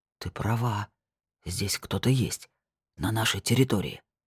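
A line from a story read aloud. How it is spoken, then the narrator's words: Whisper. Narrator (Russian): прошептал он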